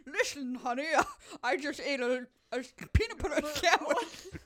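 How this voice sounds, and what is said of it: Bad Sean Connery impression. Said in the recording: “Sean Connery. Why do you have a bunch of marbles in your mouth? ... my impression. Even I am shocked by how bad that was. ... That was really, like, appallingly bad. ... It wasn't close.”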